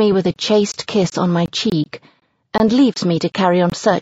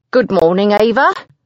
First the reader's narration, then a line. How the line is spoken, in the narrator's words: he says happily